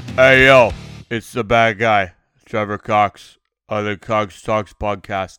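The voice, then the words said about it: Imitates another person's voice. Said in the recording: “worst fucking Razor Ramon impersonation”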